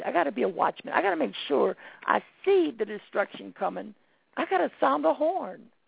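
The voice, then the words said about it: Hoarse, worn-out voice. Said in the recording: “my voice is gone in case y'all didn't notice, but yes, my voice is gone”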